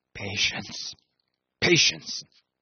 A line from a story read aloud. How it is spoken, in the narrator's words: he muttered